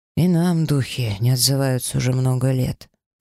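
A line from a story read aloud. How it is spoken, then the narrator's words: Humbled sigh. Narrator (Russian): вздохнул Кэлтириэль, поумерив свой гонор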